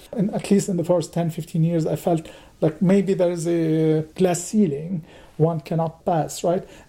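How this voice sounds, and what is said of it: Non-native English accent. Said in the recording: “I still have an accent ... my accent”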